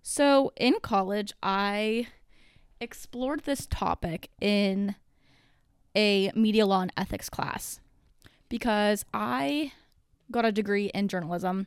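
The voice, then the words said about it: Breathless, out of breath speech. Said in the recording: “my heart's beating out of my chest right now. ... I'm out of breath sitting down. My heart is racing so fast that my body thinks it's working out, and so I'm out of breath.”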